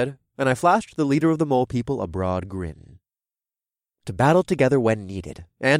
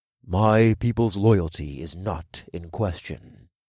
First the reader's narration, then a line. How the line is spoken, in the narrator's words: Amon said in a low voice